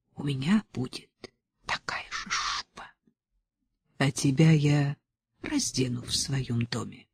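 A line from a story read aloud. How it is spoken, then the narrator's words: Whisper. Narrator (Russian): прошептала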